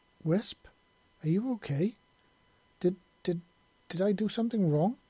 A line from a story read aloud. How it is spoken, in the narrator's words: he stammered, his head freezing up for a moment